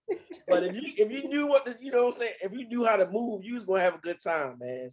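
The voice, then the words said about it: Baltimore accent. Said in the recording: “I hear the the Baltimore accent with you. ... It really kicks on when I'm around other Baltimore people ... your Baltimore accent is still so um like prevalent”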